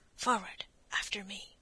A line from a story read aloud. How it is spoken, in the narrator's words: Blood, and whispered